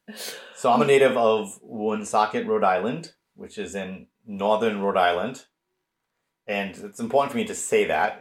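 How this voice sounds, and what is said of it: French-Canadian Rhode Island accent. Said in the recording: “historically it's a French-Canadian mill town, and that explains my accent.”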